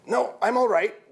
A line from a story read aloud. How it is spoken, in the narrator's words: Jeff grunted, staggering to his feet